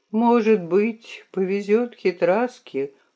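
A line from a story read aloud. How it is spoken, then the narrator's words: Sigh. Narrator (Russian): вздохнул Пипец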